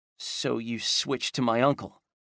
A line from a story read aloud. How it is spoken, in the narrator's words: Ellie sighed